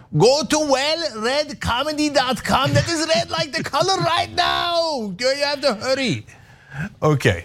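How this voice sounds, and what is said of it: Put-on Turkish-sounding accent. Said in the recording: “I could do it in my dad's accent ... That sounded Italian to me, whatever it was. ... It was kind of Turkish. It's really me doing my dad's accent.”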